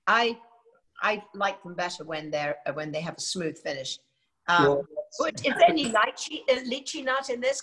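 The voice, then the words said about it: British accent. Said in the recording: “that British accent ... I love the British accent. So sensual and sexy.”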